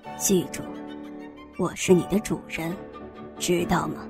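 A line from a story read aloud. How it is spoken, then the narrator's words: Low reply. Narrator (Chinese): 翠莲低声回答道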